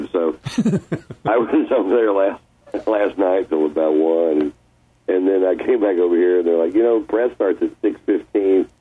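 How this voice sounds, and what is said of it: Deep, husky morning voice. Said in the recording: “you have that deep, hot, sexy voice within the morning thing going ... This is a voice built on years and years of scotch and cigars. ... there's no faking this”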